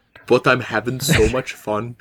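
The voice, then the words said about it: Goofy put-on voice. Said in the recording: “all you guys went so goofy with it. So goofy with it ... now I'm stuck talking like this”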